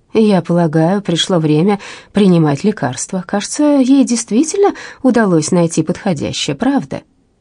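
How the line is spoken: Calm. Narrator (Russian): она спокойно произнесла

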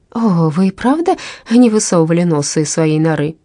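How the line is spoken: Exclaiming. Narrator (Russian): воскликнула миссис Луна

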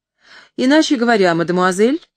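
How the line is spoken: Snide. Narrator (Russian): ехидно добавил он

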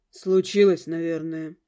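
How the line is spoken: Sighing husband. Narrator (Russian): вздохнул муж

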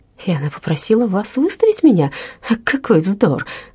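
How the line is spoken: Exclaimed. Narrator (Russian): воскликнул Рэнсом

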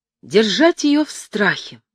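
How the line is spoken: Sudden exclamation. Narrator (Russian): вдруг воскликнул

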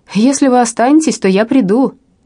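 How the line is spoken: Shouted after her. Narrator (Russian): он крикнул ей вслед

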